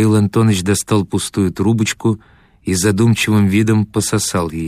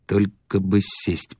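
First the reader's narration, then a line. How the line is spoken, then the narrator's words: Through gritted teeth. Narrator (Russian): процедил Дауги сквозь зубы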